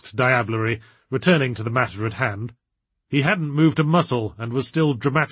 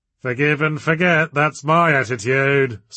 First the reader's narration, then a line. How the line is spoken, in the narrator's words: slurred Victor, tottering slightly